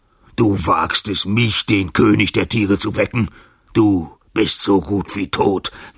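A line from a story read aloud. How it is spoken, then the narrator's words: Roar. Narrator (German): brüllte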